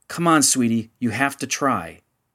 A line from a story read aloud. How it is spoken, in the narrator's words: more urgently